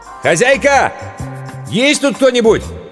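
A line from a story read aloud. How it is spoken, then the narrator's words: Shout. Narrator (Russian): Иван прокричал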